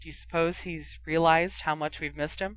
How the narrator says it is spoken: sighed Hermione

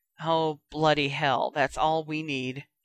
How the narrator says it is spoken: Harry groaned

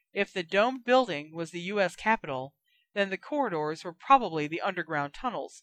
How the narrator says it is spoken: said Lupin

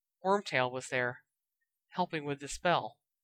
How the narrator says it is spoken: He grimaced and said softly

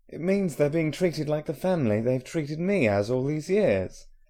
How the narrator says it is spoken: Harry said indignantly

